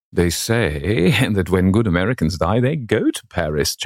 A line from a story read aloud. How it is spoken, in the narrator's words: chuckled Sir Thomas